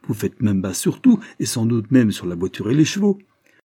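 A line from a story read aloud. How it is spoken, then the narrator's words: Man exclaiming. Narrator (French): s'écrit avec des piles l'homme décrochu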